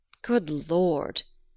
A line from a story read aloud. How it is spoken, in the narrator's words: Glennard groaned